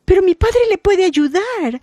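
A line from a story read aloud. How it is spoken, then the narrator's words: Exclaimed. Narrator (Spanish): exclamó Aida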